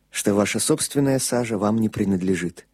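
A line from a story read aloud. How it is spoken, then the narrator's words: Quiet priest. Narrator (Russian): тихо добавил священник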